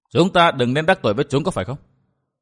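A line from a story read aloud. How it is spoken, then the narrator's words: Cold laugh. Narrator (Vietnamese): Vân Thiên Nhạc lạnh lùng cười nói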